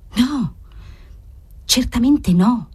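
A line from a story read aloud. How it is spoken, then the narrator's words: Whisper. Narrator (Italian): sussurrò Margherita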